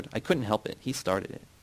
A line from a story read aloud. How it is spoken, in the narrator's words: Yara whispered